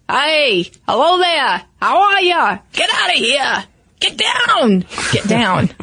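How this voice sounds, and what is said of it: Imitated Boston accent. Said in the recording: “Can you do a Boston accent ... I don't know that I'm going to sound like a Southie”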